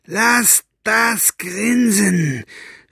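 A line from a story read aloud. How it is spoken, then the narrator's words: Shouted. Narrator (German): schrie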